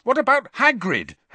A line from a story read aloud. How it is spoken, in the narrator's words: Harry said angrily